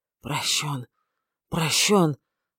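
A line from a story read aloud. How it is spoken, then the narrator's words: Dull muffled mutter. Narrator (Russian): пробормотал он глухо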